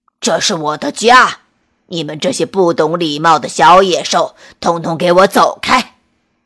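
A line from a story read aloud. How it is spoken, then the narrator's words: Giant's lion-like roar. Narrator (Chinese): 巨人用狮子一样的吼声大叫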